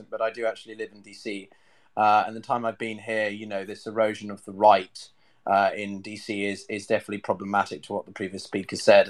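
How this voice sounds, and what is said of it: Plummy British accent. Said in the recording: “I speak with a plummy British accent”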